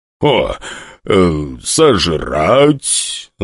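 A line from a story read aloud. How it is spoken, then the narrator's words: Thoughtful demonic growl. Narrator (Russian): задумчиво прорычал демон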